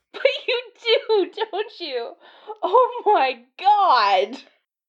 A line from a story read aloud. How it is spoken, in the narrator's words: Iron Man said, and went off into another peal of helpless laughter